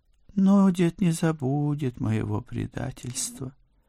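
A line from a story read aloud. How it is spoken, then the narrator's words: Sighing cat. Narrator (Russian): вздохнул кот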